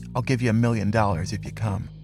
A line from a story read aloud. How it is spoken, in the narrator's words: distraught, whispered